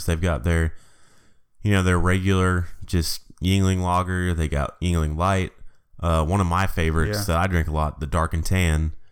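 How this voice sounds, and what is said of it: Voice sounds off from a cold. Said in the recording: “I am a little under the weather this week, so I know my voice is sounding a little weird ... this cold”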